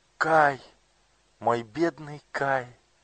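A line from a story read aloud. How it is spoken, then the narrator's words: Exclaiming. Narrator (Russian): воскликнула Герда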